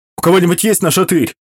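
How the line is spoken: Shouted. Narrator (Russian): крикнул Толик

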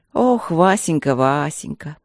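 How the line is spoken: Contented sigh. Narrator (Russian): Довольно вздохнула женщина

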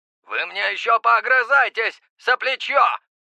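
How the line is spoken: Shout. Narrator (Russian): выкрикнул дозорный

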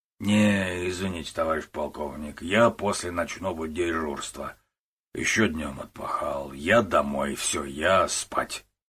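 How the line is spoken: Slurred mumbling. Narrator (Russian): пробурчал Зубов заплетающимся языком

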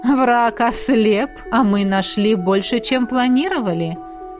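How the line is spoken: Eager laughter. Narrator (Russian): рассмеялся Ингвард, в предвкушении

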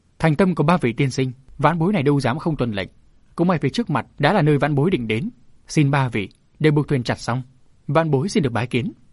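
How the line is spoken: Loud laughter. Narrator (Vietnamese): Vân Kỳ cười to

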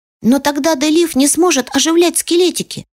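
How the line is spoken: Shout. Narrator (Russian): закричал он

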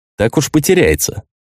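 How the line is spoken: Snorted. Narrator (Russian): хмыкнул я

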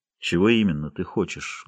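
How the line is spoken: Cold, calm voice. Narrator (Russian): Голос его звучал холодно и спокойно

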